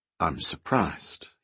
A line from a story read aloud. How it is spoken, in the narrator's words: he said calmly